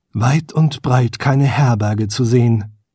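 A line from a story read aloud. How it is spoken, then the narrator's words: Unspoken thought. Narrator (German): dachte er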